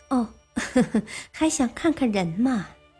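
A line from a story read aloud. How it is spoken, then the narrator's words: Lady laughing. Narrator (Chinese): 夫人笑道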